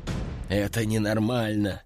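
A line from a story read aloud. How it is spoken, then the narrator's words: Sigh. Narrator (Russian): вздохнул первый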